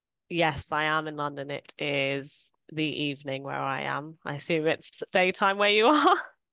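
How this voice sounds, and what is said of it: British London accent. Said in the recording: “Your accent is not one we normally have on the podcast. ... I'm from the UK. I'm from London.”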